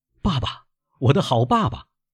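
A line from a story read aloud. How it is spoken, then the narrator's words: Old man's cry. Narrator (Chinese): 老人叫了一声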